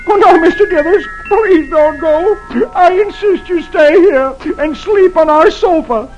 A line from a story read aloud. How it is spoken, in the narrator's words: the tears roll down Dagwood's cheeks, and he sobs